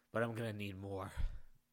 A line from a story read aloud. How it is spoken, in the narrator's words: the man panted